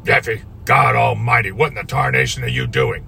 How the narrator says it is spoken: he half shouted over the little outboard's rumble

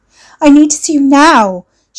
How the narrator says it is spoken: she pleaded

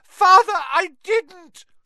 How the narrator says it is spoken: shrieked the boy in chains below

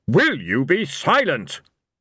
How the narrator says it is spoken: Blind Io thundered

